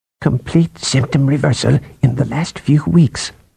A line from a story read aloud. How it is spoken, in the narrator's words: Kalaritan said in a low voice